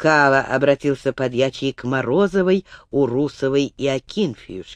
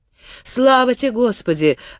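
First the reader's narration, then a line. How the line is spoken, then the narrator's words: Joyful exclamation. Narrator (Russian): радостно воскликнула первая из них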